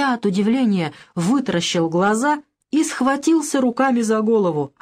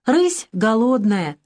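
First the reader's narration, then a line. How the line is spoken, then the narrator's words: Plain. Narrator (Russian): сказал я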